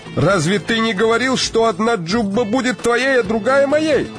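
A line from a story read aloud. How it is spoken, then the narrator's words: Shout after someone. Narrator (Russian): Закричал ему портной вслед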